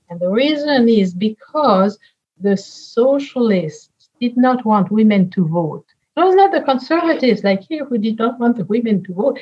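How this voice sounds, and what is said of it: French accent. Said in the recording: “You hear it from my accent. I was born in France and raised in France”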